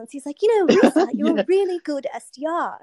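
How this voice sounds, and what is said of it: Put-on British accent. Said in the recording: “he had a British accent, so I'm going to do it because I love British accents.”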